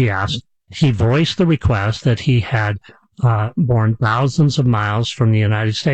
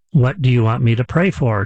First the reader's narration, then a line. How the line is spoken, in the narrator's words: said